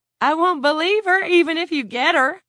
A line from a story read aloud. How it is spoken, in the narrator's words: Lila cried